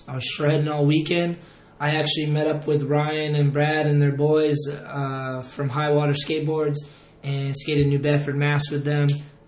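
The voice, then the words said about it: Strained, worn-out voice. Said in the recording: “excuse my voice ... yelling a whole bunch, so my voice cut out ... Today, it's like starting to come back”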